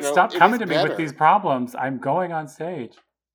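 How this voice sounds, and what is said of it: Imitates another person's voice. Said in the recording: “this is my impression.”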